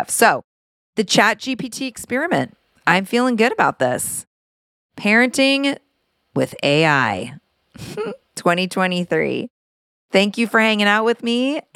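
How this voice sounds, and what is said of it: Raspy, hoarse voice. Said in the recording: “my kind of raspy voice, because I was doing a lot of woohoo last night at the concert ... my sexy, raspy voice”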